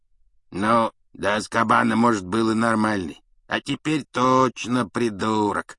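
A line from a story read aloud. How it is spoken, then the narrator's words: Drawl. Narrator (Russian): протянул Эрни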